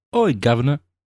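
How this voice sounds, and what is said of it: Weak attempt at British accent. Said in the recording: “You're not British. ... I cannot do a British accent.”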